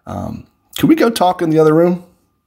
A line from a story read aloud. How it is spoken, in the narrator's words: calmly asked